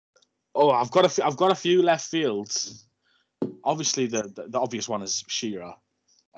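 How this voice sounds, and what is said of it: Regional English accent. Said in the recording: “it's pretty clear from your accent why you support the club you do”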